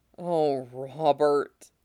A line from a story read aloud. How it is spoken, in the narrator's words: he said, and his voice sounded so thick with sorrow